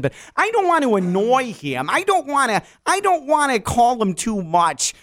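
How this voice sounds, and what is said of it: Matt LaFleur impression, Wisconsin accent. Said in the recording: “Matt LaFleur also has developed a hardcore Wisconsin accent”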